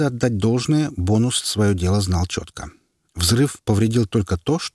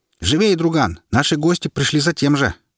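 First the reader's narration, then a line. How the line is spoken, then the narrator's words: Shout. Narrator (Russian): крикнув, я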